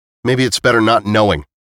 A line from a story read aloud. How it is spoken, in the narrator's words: he snapped